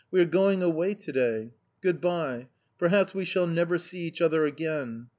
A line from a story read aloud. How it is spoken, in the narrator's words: I cried